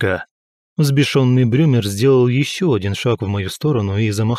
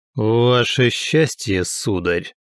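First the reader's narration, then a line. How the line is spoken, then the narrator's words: Growling undertone. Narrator (Russian): В голосе Крибби прозвучали рычащие нотки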